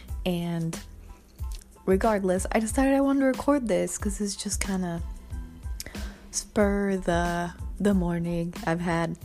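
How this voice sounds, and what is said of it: Rough, sick-sounding voice. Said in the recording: “my voice is kind of fucked up. I'm kind of sick.”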